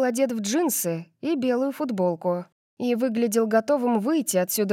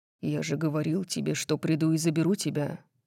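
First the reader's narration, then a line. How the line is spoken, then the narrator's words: Soft. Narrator (Russian): мягко сказал он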